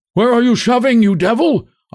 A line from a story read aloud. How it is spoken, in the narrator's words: shouts from the dark mass shifting to and fro